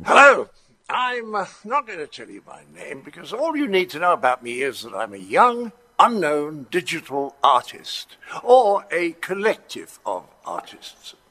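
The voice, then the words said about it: Thick British accent, John Cleese. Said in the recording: “John Cleese ... the guy's got a thick British accent”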